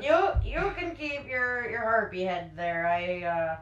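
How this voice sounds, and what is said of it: Put-on Fargo Midwestern accent. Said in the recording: “This accent's so out of place... from Fargo all of a sudden.”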